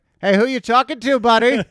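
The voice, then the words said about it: Boston accent impression of Jay Larson. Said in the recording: “In his little Boston accent.”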